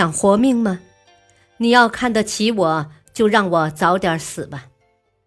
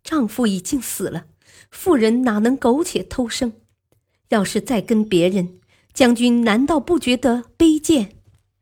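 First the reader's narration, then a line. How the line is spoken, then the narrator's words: Wailing loudly. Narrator (Chinese): 刘氏嚎啕大哭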